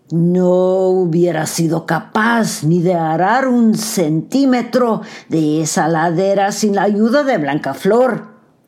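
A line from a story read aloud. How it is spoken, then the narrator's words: Devil's roar. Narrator (Spanish): rugió el diablo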